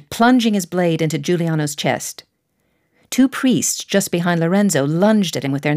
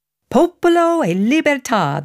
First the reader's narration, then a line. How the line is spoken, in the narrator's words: the Pazzi yelled